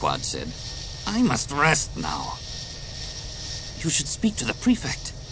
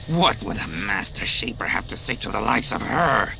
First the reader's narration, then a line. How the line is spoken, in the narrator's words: Quad sneered